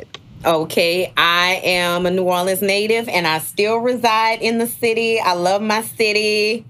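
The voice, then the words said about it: New Orleans accent. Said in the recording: “you guys are going to hear the New Orleans accent”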